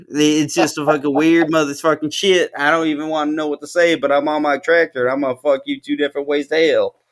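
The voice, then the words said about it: Put-on Southern US accent. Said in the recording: “I cuss a little bit too much when I'm in the Texas accent ... this doesn't even sound like Texas ... It don't even sound like Texas, but it could be Kentucky”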